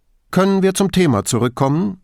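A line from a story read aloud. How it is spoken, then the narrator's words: Curt, brusque. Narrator (German): fragte Grifoni schroff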